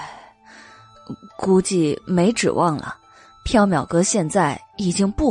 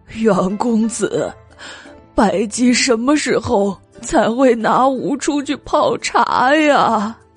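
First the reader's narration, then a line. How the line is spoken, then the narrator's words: Tearful complaining. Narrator (Chinese): 蜜色荷花盏哭诉道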